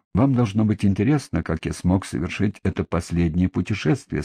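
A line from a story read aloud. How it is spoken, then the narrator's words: Plain. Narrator (Russian): сказал я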